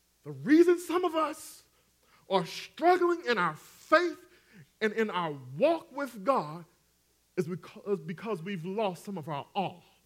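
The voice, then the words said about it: Southern twang accent. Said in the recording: “You know I got that twang, so I need to spell it for y'all.”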